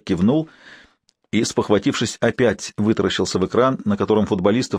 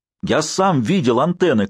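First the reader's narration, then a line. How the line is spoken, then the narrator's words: Shouted. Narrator (Russian): крикнул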